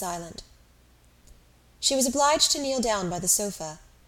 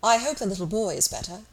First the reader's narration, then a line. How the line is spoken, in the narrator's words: calmly and politely saying